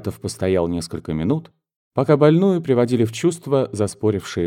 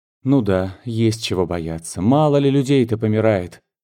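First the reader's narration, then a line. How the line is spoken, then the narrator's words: Displeased woman grumbling. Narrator (Russian): недовольным тоном ворчала женщина в черном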